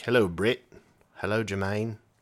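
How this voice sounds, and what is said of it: Put-on New Zealand accent. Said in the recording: “You can do a New Zealand accent? ... You sound like the Beatles.”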